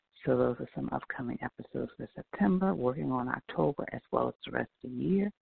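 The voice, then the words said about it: Slightly off, unwell-sounding voice. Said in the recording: “apologize for my voice, it's just a little off ... get myself healthy”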